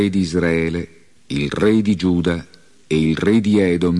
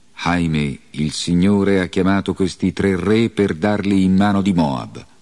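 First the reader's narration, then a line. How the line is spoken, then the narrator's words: King exclaiming. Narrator (Italian): Il re esclamò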